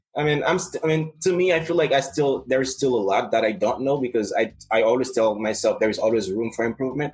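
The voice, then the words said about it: Non-native English accent. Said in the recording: “I knew it was not my native tongue ... my accent is a little bit shaped by the regions where I live in. ... Yes, I can hear it.”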